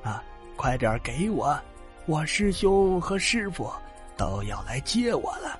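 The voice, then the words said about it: Quiet, hushed voice. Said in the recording (Chinese): “一边小声说”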